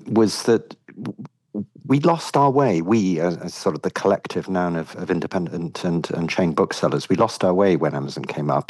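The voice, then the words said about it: British accent. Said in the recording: “my own view and certainly my experience in the United Kingdom, you will gather from the accent, that's where I come from”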